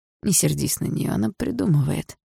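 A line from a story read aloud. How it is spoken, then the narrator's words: Soft gentle. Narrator (Russian): мягко сказал Андрей маме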